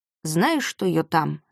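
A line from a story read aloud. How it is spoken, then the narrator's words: Solemn tone. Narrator (Russian): сказал он торжественным тоном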